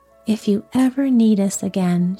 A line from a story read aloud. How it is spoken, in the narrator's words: she said